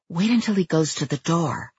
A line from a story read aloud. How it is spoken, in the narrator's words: I whispered